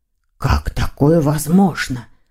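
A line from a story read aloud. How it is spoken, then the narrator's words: Whisper. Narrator (Russian): прошептал он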